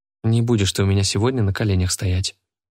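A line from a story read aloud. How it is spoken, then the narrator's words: Muttering. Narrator (Russian): бормочет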